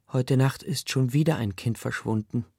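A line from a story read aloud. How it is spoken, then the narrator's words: Plain. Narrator (German): sagt Paris Ma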